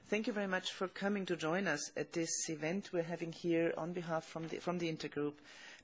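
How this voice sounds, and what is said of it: Hoarse voice. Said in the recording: “my voice is a bit hoarse,”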